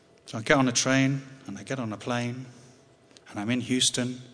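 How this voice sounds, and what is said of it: Usual voice. Nothing is said of it.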